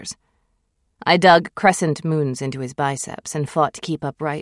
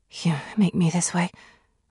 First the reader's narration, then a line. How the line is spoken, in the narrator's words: I whispered